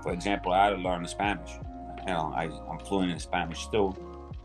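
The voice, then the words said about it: Speaks with a foreign accent. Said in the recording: “a lot of people like my accent”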